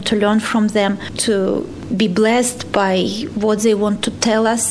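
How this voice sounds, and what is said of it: Non-native English accent. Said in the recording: “excuse me for my accent, for my English. It's not perfect.”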